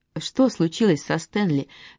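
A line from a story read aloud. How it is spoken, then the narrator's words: Soft gentle question. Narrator (Russian): мягко спросила Миранда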